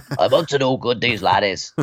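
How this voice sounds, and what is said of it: Poor put-on Scottish accent. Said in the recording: “that was awful... like I'm Scottish”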